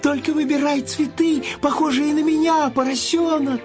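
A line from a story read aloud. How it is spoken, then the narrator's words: Shouting flower. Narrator (Russian): крикнул цветок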